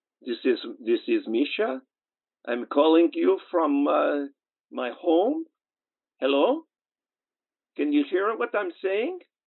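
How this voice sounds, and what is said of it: Weak put-on Russian accent. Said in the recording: “My Russian accent is really bad right now because it's been such a long time since I played Misha.”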